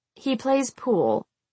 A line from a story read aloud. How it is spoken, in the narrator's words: I said, my voice uninspired